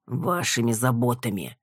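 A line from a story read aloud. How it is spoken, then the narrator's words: Grumbling. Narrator (Russian): проворчал Рокин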